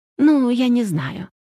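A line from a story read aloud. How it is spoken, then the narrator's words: Weary, confused sigh. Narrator (Russian): утомленно вздохнула Вышнепольская, очевидно, запутавшись в терминологии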